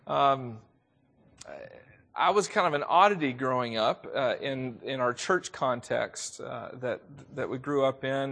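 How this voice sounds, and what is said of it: Southern US accent. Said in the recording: “I am from the South. If you didn't already know that, you probably can hear it in my voice.”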